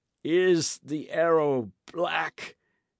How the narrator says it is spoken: he gasped

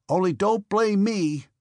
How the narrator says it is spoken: shouted up after him

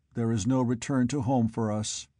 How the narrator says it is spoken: Buck stated flatly

